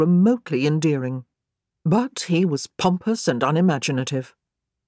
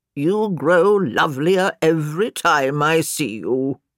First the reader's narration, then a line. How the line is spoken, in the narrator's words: he said in a deep, croaking voice